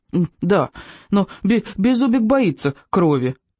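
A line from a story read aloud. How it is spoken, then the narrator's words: Little dragon whimpering. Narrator (Russian): хныкал дракончик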